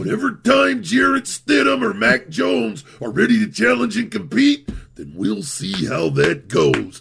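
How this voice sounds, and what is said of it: Rough Randy Savage impression. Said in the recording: “That's a pretty good Randy Savage. ... That's not a good impression. ... It's pretty good. No, it's good because it's bad.”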